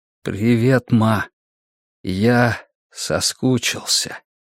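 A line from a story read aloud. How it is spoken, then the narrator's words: Slow, quiet. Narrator (Russian): медленно, тихо выговорил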